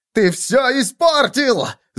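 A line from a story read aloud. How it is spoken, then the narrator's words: Yelling. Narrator (Russian): завопил Виссен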